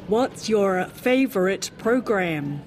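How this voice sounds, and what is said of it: Put-on American accent. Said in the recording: “That was my best American accent.”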